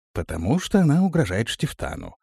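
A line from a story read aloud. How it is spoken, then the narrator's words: Calm. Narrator (Russian): спокойно ответил тот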